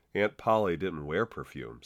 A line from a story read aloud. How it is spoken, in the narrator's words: said Alice